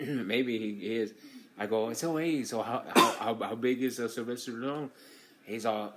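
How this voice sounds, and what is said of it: Usual voice. Nothing is said of it.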